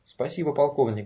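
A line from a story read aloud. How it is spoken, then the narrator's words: Said quickly. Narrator (Russian): быстро сказал Конрад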